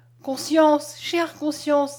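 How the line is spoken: Exclaimed. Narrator (French): s'écria Mariette

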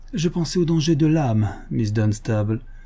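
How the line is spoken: Grave woman's voice. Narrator (French): dit l'épouse de l'archevêque d'un ton grave

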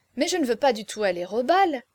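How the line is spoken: Exclaimed. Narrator (French): s'écria Aurore

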